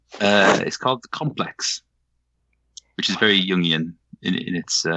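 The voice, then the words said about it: Welsh accent softened toward English. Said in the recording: “my accent is uh, Welsh ... I thought it was Scottish. It's Welsh. Sounds uh, Shakespearean ... speak with a more English accent so people can understand me over time, and now it's somewhere in between.”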